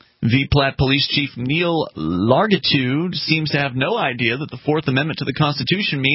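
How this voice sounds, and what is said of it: Usual voice. Nothing is said of it.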